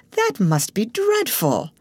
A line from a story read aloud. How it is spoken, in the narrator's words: she exclaimed